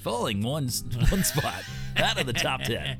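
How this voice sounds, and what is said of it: Exaggerated radio DJ countdown voice. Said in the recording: “That's the first time I tried our DJ voice, and it was not good. ... I was shooting for Casey Kasem, and I don't know. It turned into a bad Jimmy Fallon.”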